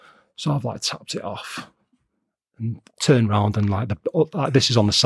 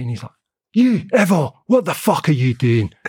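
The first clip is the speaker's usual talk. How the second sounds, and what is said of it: Put-on Scottish accent. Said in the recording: “It's a good accent, actually. ... excuse the Scottish accent”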